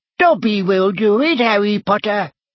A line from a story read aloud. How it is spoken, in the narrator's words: squeaked Dobby, his tennis ball-sized eyes still swimming in tears